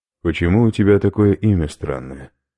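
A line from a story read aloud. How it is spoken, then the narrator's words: Plain. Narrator (Russian): спросил Иван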